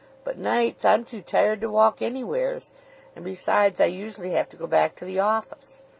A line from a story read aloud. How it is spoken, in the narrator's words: Luke croaked